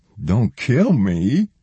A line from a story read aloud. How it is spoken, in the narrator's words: Laurie whimpered